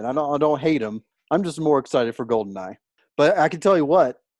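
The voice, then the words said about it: Texan Southern accent. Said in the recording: “I'm from Texas ... you're a hick. You talk with marbles in your mouth ... I've gotten some compliments already on my accent”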